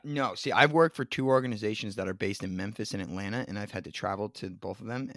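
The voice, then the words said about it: New Jersey accent. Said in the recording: “the New York and the New Jersey just oozes out of us... It's a Jersey accent.”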